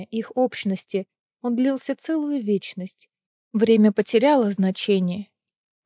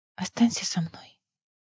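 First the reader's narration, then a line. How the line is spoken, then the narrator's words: Whisper in the dark. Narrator (Russian): Неста прошептать в темноте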